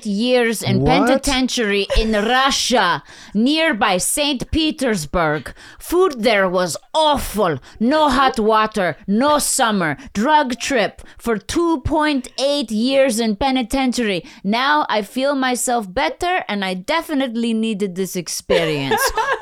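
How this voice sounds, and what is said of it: Put-on foreign accent. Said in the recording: “you just dove in with the accent ... I can do any accent”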